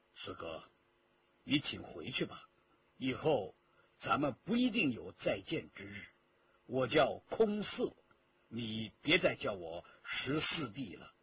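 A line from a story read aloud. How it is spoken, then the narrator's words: Cold, hardened. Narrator (Chinese): 硬起心肠，冷冷地说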